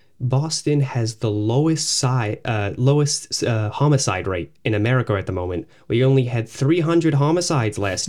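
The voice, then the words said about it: Put-on Boston accent. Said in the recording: “That's a good Boston accent. ... Acting.”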